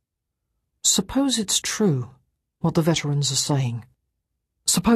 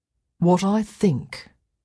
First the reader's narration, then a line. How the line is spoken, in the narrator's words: said Tommy slowly